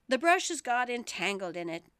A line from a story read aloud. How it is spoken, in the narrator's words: the queen said with a sigh